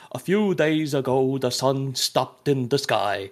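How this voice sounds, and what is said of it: Imitated Swedish-accented narrator voice. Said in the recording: “the opening narration is like a guy doing a Swedish accent”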